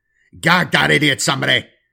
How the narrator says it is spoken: The Inquisitor captain barked

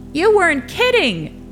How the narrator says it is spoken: someone shouted

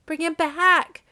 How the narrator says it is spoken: cried the old woman

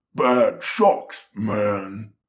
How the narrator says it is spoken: Marco said in a low, guttural, muddy voice

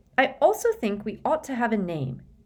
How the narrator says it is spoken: she said brightly

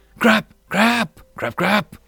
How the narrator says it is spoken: Flying Fish 1 yelled out in fright as the sight of the suddenly alive islands

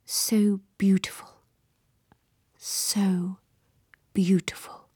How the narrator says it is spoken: Parlachin murmured

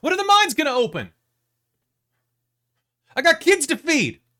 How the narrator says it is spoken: you hear someone shout out

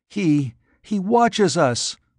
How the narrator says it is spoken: the girl whimpered

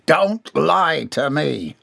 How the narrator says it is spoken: Wolfenstein thundered

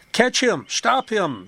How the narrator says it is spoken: the girl cried

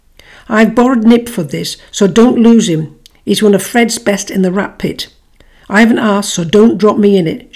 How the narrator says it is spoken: she told Baxter sharply

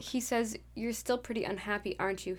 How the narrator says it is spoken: He murmured

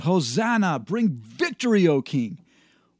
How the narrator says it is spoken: someone shout

